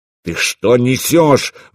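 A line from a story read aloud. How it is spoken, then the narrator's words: Roaring nobleman. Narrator (Russian): взревел боярин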